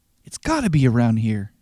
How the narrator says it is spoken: she says

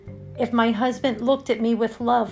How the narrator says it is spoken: I cried

